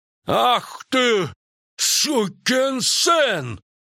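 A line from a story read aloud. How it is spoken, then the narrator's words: Sudden barking shout. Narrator (Russian): неожиданно рявкнул Крахан Крайт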